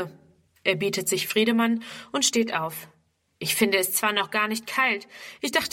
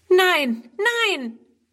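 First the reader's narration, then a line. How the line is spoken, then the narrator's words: Horrified cry. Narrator (German): ruft Friedrun entsetzt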